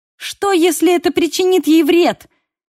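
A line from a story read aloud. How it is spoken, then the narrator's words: Exclamation. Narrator (Russian): воскликнула я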